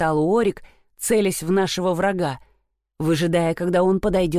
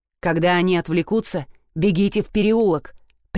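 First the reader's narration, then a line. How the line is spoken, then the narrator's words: Commanding tone. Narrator (Russian): приказным тоном сказал Уорик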